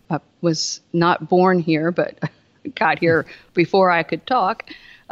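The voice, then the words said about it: Southern American accent. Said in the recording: “you probably can figure it out from my accent ... I live in the South”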